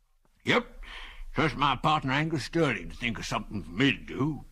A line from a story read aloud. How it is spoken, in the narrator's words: continued the old man in a wheezy voice